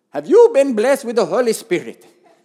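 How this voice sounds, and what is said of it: Put-on accent imitating a woman. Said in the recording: “Maybe the accent will give you a clue or confuse you.”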